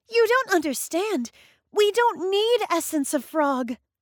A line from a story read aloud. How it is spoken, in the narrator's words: cried Matilda